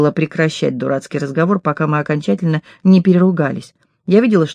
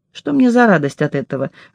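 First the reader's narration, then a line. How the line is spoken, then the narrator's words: Laughing. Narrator (Russian): рассмеялась я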